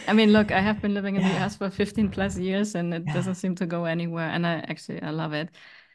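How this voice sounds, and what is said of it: German accent in English. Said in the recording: “You can all listen to our German accents, which we do have.”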